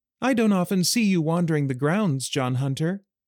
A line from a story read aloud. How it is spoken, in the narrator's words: Ailsa said in a cheery voice